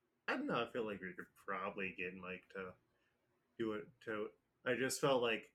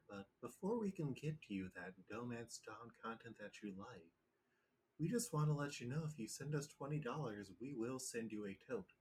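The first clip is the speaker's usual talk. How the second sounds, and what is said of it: Public radio announcer voice. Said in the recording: “I was using my public radio voice”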